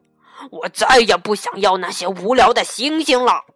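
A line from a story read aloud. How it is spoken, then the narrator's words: Angry roar. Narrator (Chinese): 坏脾气的格拉夫冲着小兔子怒吼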